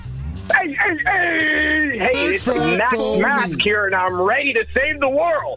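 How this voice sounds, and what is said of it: Very excited voice. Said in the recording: “You sound very excited.”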